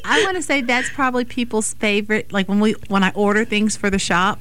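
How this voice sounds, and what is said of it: Southern drawl. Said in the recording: “This southern drawl is just stuck.”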